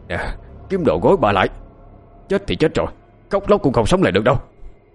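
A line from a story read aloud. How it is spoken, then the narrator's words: Angry shout. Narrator (Vietnamese): Ông Chánh quát lên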